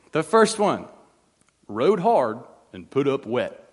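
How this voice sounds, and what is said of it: Put-on Southern accent. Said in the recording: “I do feel like I have to read these with a Southern accent.”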